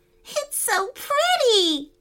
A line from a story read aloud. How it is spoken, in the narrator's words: giggled Rain Kitty